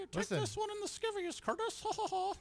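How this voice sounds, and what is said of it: Cartoon mouse character voice. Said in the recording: “That was my Mickey Mouse impression ... That was Mickey on performance enhancing drugs.”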